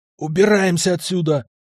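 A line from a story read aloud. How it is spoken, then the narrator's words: Hoarse rasp. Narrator (Russian): прохрипел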